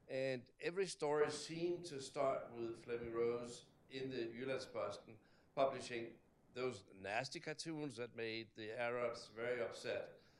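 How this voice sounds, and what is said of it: Danish accent. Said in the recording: “having my accent, people say, oh, you're from Denmark.”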